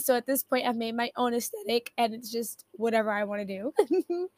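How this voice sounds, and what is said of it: Raspy voice. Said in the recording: “Sorry if my voice sounds raspy ... my voice is just like not giving what it usually gives”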